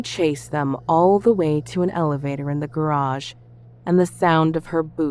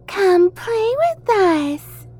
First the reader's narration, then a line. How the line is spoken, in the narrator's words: Matilda said in a high, childlike voice